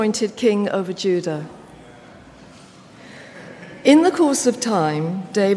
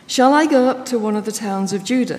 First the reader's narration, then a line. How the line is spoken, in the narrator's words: he asked